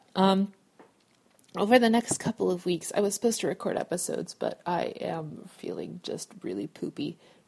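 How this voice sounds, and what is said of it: Congested, sick-sounding voice. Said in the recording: “I hope that my voice isn't too crazy right now. I'm just coming into a cold.”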